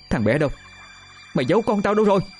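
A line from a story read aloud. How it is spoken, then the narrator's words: Loud shout. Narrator (Vietnamese): không chần chừ hét lớn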